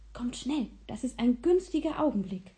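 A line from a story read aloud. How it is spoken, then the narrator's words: Whispered. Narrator (German): flüsterte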